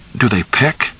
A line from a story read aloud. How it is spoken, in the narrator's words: Charlie asked a little nervously